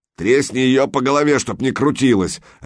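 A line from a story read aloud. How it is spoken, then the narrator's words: Bark. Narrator (Russian): рявкнул тот, который держал Санька на ноже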